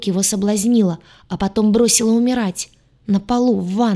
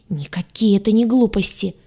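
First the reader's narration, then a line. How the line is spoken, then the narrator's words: Angry hiss. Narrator (Russian): Зло зашипела лагартианка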